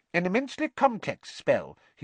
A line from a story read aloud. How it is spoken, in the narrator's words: he said squeakily